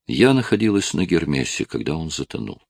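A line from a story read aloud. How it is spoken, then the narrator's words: Quiet explaining. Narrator (Russian): тихо объяснила Скарлетт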